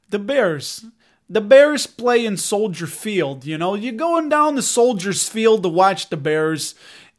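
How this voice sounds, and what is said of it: Exaggerated Chicago accent. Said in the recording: “I think I was going to do my Chicago accent ... I can play it up”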